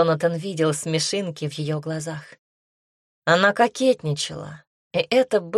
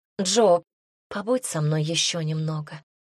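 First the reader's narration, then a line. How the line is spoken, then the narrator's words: Quiet pleading. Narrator (Russian): тихо попросила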